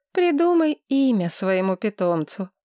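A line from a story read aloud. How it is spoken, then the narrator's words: Sighing. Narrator (Russian): вздохнула Маргарет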